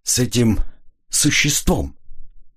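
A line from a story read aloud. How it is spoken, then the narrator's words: Hesitant, forced out. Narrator (Russian): Граф помялся и выдавил из себя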